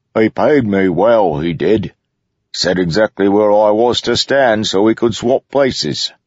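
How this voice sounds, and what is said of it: Unfamiliar regional accent. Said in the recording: “He had an accent Kaladin didn't recognize.”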